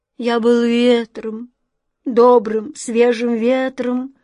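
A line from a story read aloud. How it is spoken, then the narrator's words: Moaning, beckoning whirlwind. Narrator (Russian): стонал и зазывал смерч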